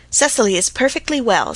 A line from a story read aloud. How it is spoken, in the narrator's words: said Aunt Janet sharply